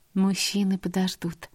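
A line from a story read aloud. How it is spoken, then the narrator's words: Soft young woman. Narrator (Russian): мягко сказала девушка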